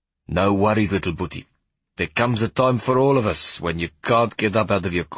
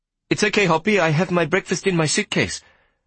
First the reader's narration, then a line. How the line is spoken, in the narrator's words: I said hastily